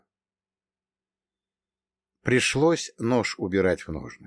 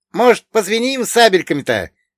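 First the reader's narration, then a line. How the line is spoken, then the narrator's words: Cheerful shout. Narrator (Russian): весело прокричал Богдан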